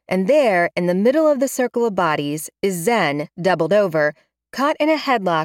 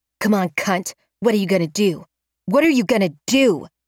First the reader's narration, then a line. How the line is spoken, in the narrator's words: Rosa snarls